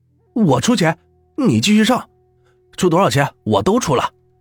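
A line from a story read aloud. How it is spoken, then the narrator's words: Shouting. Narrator (Chinese): 边喊着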